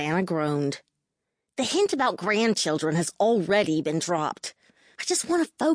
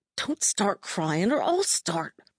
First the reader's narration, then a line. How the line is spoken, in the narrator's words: said, choking back the tears clogging my throat